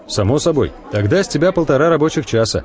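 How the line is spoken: Plain. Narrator (Russian): говорит Йован

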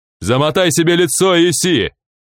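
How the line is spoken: Yell. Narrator (Russian): заорал тапок

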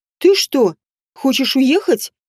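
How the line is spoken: Exclamation. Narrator (Russian): воскликнула

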